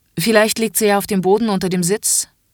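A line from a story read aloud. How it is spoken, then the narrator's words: Impatient, stern inspector. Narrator (German): sagt die Kontrolleurin jetzt etwas ungeduldig und mit strenger Stimme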